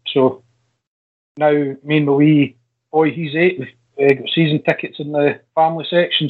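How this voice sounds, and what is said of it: Regional accent, not Glaswegian. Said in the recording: “you can probably tell by the accent, not a Glasgow native”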